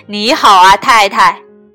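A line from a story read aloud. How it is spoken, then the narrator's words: Loud shout. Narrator (Chinese): 潘松太太高声大叫着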